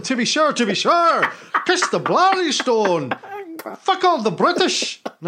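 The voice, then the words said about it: Poor put-on Irish accent. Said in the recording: “No, that's getting a bit Scottish there... This is a terrible accent... I got to get my leprechaun on... I'm Irish”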